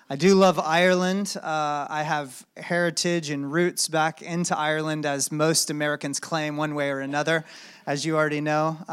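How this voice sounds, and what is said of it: American accent. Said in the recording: “Apologize for the funny accent.”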